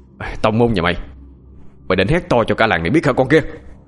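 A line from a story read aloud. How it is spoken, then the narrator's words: Shout. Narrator (Vietnamese): Một thằng đứng dậy hét lên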